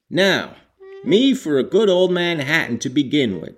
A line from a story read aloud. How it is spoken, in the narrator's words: exclaimed Hegland avidly